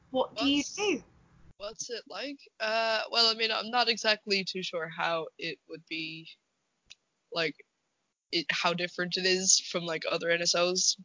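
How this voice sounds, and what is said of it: Irish accent. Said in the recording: “you're a scout in Ireland ... people hadn't already picked that up from the accent. ... an Irish scout”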